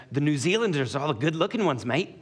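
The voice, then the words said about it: Put-on New Zealand accent. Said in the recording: “he had moved from New Zealand, and so he had this amazing, like, accent”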